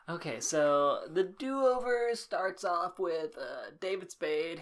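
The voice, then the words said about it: Put-on podcast host voice. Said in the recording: “What's this voice? ... It sounded like a podcast voice.”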